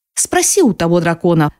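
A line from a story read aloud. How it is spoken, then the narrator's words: Irritated, curt. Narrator (Russian): раздраженно бросает Хейден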